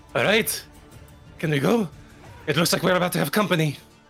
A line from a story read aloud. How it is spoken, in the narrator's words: eyes wide, She says hoarsely